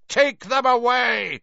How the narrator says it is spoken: Crouch roared at the Dementors, spit flying from his mouth

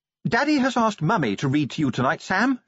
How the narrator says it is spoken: she announced brightly

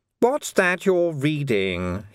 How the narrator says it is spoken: he snapped

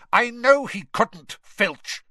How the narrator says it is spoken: Snape snapped

